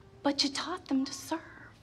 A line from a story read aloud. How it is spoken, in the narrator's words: the Lord spoke to me in that very quiet voice that he does, and he said